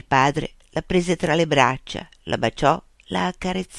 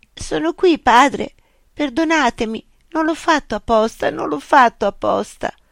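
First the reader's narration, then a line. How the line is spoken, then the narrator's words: Sobbing, tearful. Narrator (Italian): scossa dai singhiozzi, con le lacrime che le colavano sulle guance, uscì fuori e disse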